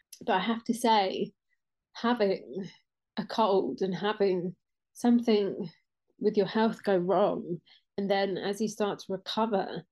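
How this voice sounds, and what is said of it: Snuffly congested voice. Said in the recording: “I've been recovering from a bit of a head cold ... my voice sounds a little bit snuffled”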